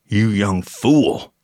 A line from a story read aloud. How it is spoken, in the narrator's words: growled